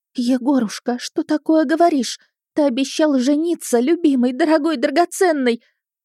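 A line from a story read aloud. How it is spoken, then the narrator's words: Sobbing girl. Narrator (Russian): Всхлипывая, девушка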